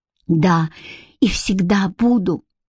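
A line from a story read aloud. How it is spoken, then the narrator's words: Whisper. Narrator (Russian): прошептал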